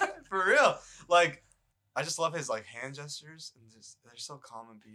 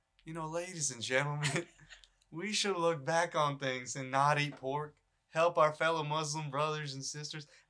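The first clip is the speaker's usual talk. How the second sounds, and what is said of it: Put-on Southern accent. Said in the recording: “Was that your Southern accent right there?”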